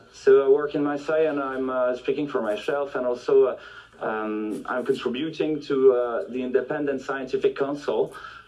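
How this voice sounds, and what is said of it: French-accented English. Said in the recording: “I should speak in French normally ... you may forgive my accent and my poor English”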